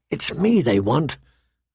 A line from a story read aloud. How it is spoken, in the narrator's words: Arya whispered back